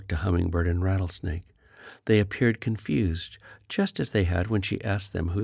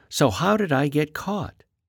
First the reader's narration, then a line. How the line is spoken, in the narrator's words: She took a deep breath, then blurted out